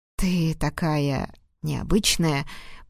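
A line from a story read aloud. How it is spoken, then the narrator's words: Husky drawl. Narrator (Russian): протянул хрипло Рейн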